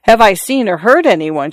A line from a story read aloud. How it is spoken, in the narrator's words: she cried